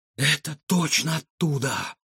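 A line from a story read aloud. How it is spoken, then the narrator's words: Breathless exhale. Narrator (Russian): выдохнул Егор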